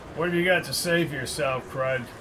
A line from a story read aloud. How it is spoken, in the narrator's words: he asked in his military voice